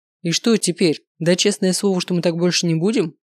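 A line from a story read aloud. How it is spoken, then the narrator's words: Smirking grunt. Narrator (Russian): хмыкнул Маркус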